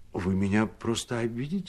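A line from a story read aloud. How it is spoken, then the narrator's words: Timid. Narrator (Russian): говорил робко кавалерист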